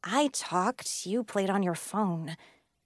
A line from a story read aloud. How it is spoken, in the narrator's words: muttered